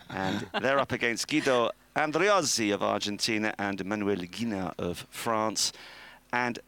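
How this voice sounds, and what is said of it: Usual voice. Nothing is said of it.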